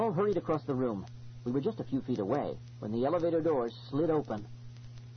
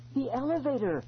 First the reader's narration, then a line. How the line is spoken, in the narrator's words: Eloise gasped